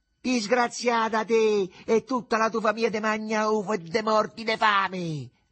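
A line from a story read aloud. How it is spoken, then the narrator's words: Mother shouting. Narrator (Italian): gridò la madre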